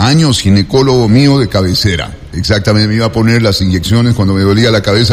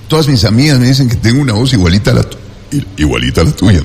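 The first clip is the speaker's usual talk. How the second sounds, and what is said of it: Deep radio announcer voice. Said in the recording (Spanish): “Ponía voz de locutor”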